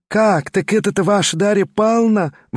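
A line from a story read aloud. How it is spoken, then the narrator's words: Exclaiming. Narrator (Russian): воскликнула Марья Тимофеевна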